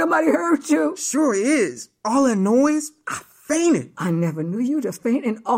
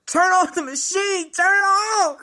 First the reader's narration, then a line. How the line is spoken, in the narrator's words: I hollered